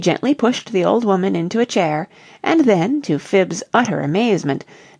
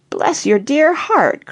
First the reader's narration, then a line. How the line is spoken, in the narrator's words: cried Phibbs, while tears of gratitude stood in her faded eyes